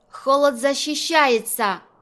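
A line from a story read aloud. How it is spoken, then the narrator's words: Shout. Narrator (Russian): крикнула Лилу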